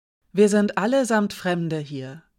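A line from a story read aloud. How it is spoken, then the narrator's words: Silky voice. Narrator (German): mit dieser seidigen Stimme gesagt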